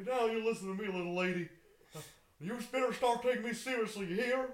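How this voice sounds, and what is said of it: Put-on Texan accent. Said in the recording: “he does a good Texan accent”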